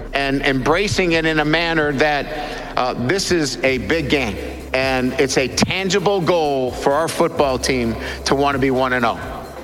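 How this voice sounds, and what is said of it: Bad forced Southern accent. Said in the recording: “accent was just as bad as Brian Kelly forcing a Southern accent ... You sound like Boomhauer from King of the Hill”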